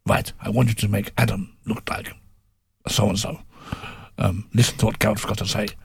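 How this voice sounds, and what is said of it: Imitated accent of Andre Villas-Boas. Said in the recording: “Sorry, I've never great accent, as you can tell. ... you're very good at these.”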